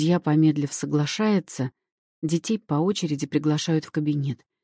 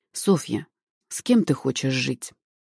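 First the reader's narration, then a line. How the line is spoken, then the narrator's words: Gentle question. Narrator (Russian): мягко спрашивает судья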